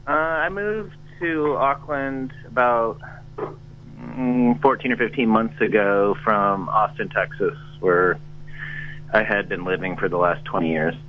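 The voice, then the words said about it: Non-New Zealand accent. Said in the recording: “that's not a Kiwi accent that I hear, is it?”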